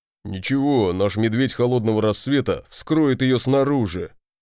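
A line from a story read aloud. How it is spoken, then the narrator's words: Deep bass voice. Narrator (Russian): пробасил Барди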